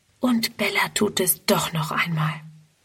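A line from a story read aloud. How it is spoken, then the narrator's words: Whispering to herself. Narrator (German): Friedrun flüstert vor sich hin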